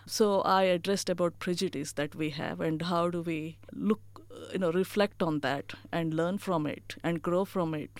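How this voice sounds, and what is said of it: Indian-accented English. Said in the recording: “English is my second language. And I have Indian accent.”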